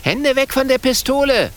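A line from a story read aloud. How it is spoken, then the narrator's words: Calling out. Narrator (German): ruft Kokosnuss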